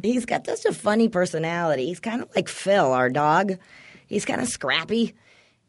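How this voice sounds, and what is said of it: Scratchy voice from laryngitis. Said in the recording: “laryngitis-y ... My voice is obnoxious as it is. Now it's all scratchy.”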